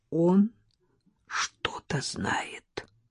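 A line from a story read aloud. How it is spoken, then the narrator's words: Forced out, strained. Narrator (Russian): Оксана ... выдавила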